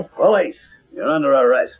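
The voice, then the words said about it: Imitates a police officer's voice. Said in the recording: “My cop impersonation was perfect.”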